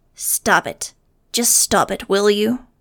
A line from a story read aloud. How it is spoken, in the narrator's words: Tuttle snarled suddenly